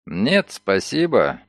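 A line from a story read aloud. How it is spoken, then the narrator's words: Dry reply. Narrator (Russian): сухо отозвался Ноултон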